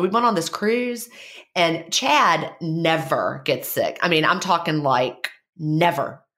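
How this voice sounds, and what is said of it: Stuffy, congested voice. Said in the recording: “my voice sounds a little weird today... that's why I sound funny... I sound a little different. I'm a little stuffy.”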